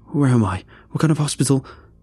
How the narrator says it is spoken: Startled, blurting out

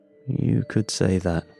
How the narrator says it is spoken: I muttered

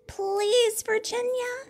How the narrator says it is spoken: I said

